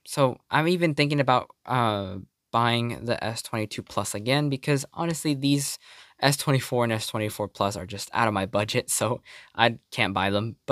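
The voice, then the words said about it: Tired, strained voice giving out. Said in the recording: “My voice is giving out.”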